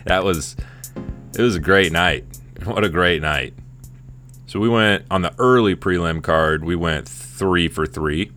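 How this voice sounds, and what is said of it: Hoarse, strained voice. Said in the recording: “my voice is a little blown out. I was yelling all night long.”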